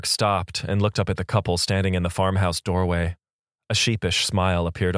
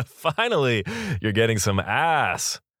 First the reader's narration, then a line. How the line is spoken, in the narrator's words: the man announced with a belly laugh